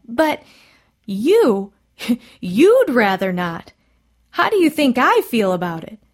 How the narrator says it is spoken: the doctor cried

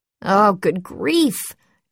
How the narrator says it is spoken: George moaned

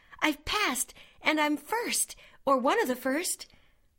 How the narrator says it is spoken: exclaimed Anne

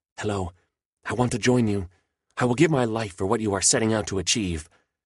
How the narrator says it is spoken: says in an excited but hushed tone

